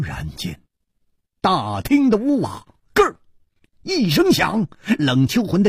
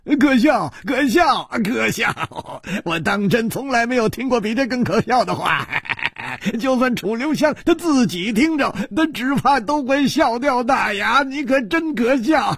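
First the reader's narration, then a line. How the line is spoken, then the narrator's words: Loud mocking laughter. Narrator (Chinese): 冷秋魂哈哈大笑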